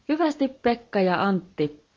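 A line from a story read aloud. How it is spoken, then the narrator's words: Sudden melodious female exclamation. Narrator (Finnish): huudahti yhtäkkiä sulava naisääni ilmasta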